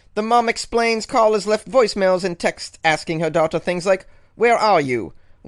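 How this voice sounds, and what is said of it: Put-on accent while reading news. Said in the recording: “I don't know if I can keep this accent going, guys, but I'm trying here.”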